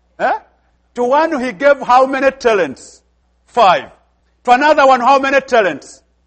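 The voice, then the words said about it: Speaks with a noticeable accent. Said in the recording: “Are you hearing my accent?”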